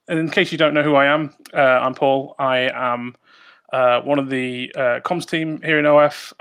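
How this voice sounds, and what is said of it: British accent. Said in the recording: “my dulcet tones, my British accent”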